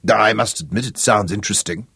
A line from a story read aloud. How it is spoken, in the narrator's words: he said gruffly